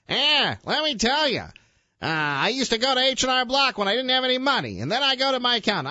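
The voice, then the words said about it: Imitates another person's voice. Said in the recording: “I'm trying to do my Hannity voice”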